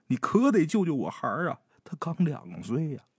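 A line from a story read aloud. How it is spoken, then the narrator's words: Sobbing plea. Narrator (Chinese): 哭的稀里哗啦的，一边哭一边求王大师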